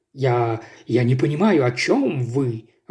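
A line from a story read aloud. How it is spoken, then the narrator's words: Strained stammer. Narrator (Russian): выдавил мистер Динсмит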